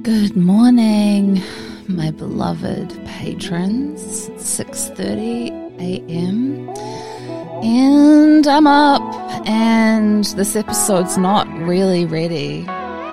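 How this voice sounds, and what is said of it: Groggy, unused early-morning voice. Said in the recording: “These are the first words that I've uttered today, as you can hear in my voice.”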